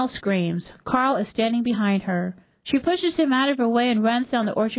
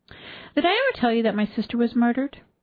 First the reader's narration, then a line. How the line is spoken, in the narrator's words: Anna smoothed her already neat skirt and sighed